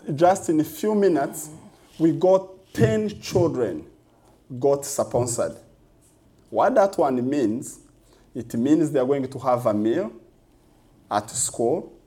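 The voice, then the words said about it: Heavy accent. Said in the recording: “my heavy accent”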